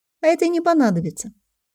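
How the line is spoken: Calm statement. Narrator (Russian): спокойно заявила она

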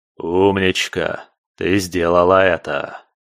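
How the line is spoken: Hoarse sing-song praise. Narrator (Russian): пропел похвалу хриплый голос

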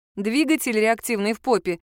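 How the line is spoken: Giggling. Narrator (Russian): хихикнула я

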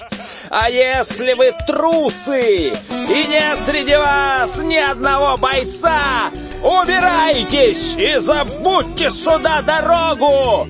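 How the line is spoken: Insulting shouting. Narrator (Russian): кричал он обидные слова

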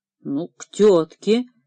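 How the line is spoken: Uncertain agreement. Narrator (Russian): неуверенно согласился Ткачук

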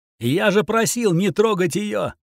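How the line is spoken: Shouting. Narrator (Russian): закричал я

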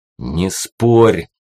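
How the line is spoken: Growling. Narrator (Russian): рыкнул я на нее

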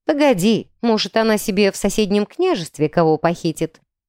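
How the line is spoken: Amused snort. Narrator (Russian): хмыкнул я

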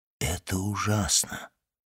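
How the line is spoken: Whispered. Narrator (Russian): прошептал аббат

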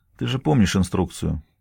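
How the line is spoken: Tired remark. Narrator (Russian): устало замечает

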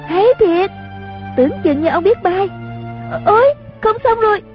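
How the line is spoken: Cheering. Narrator (Vietnamese): Chung Linh vỗ tay reo lên

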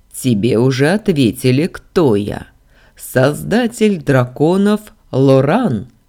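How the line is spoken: Chuckling. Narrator (Russian): хохотнул он

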